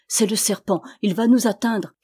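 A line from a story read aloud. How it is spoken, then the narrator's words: Crying out. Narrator (French): cria Armel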